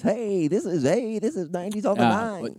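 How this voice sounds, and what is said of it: Radio DJ voice. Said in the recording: “Radio voice?”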